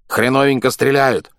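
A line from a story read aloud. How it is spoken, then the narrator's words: Flat grunting voice from well. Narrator (Russian): хрюкал он из колодца фанерным голосом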